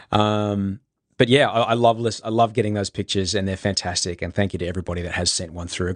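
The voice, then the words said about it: Congested voice from a cold. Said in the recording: “You might hear it in my voice. I've got the man cold”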